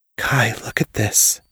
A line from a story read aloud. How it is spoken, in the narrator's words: said, my voice barely above a whisper